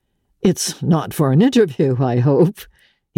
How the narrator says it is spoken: he laughed

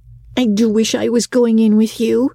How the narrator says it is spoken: said Diana

